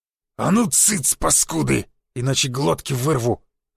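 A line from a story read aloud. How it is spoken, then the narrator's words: Growling threat. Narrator (Russian): зарычал он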